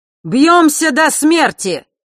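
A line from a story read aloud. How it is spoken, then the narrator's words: Fearless shout, smiling. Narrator (Russian): выкрикнул зодчий, бесстрашно улыбаясь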